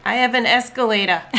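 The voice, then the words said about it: Put-on New York accent. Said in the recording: “it's fun to say this with a New York accent.”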